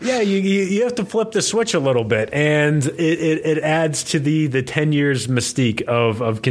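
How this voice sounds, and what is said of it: Usual voice. Nothing is said of it.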